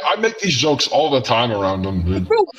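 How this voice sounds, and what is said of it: Deepened voice through voice changer. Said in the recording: “voice changer ... This one makes me sound like my balls dropped.”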